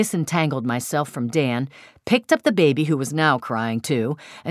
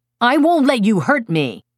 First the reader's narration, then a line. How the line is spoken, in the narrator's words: I shouted furiously